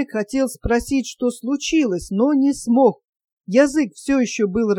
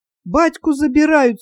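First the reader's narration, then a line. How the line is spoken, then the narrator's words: Tearful. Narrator (Russian): сквозь слезы сообщила Настька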